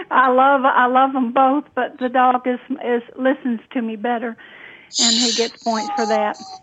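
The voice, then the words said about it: Authentic Southern US accent. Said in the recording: “I love her accent. It's so Southern and so authentic ... she truly does have a beautiful Southern accent”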